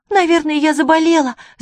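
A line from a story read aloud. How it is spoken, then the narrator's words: Shouted. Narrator (Russian): закричала она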